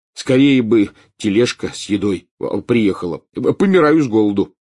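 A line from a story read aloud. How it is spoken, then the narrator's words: Exclamation. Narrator (Russian): воскликнул Рон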